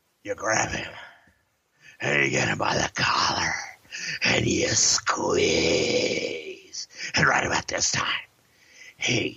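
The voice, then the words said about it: Vince McMahon impression. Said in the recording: “your Vince McMahon impression ... Vince is off camera and approaches Hogan and coaches him up on how to make this scene work”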